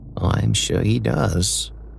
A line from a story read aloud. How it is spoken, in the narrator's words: Charlotte smiled wistfully